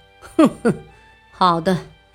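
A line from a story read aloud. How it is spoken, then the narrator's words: Cold sneer. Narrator (Chinese): 观察室冷笑道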